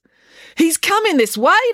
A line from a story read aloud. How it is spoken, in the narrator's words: declared April excitedly